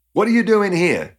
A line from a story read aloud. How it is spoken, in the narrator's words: she yelled